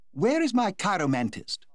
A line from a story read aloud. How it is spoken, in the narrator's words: said in her clear contralto voice